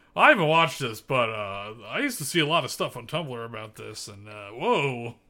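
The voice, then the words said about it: Imitates another person's voice. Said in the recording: “that was your impression of me? ... that what I sound like?”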